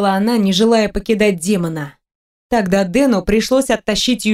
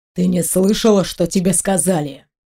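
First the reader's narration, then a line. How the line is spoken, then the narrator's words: Hissed. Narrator (Russian): прошипел Вельзевул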